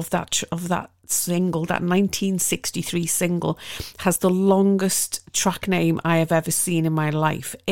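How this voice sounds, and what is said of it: Liverpool Scouse accent. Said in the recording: “I'm from Liverpool. I know, it's hard to tell with my beautiful BBC cutglass accent.”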